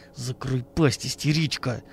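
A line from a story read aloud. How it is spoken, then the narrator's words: Hateful hiss. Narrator (Russian): с ненавистью прошипел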